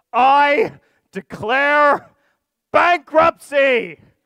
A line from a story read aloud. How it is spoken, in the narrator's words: he shouted this loud enough